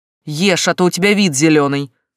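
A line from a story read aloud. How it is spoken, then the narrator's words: Stern. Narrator (Russian): строго сказал он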